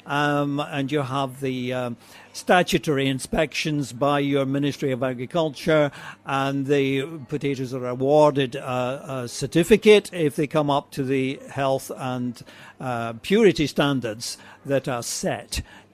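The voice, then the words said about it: Slight Scottish accent. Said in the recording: “you don't have a very strong Dublin accent? ... I don't have a Welsh accent either, but some of you might recognise a bit of a Scotch tang to my, I should say Scottish”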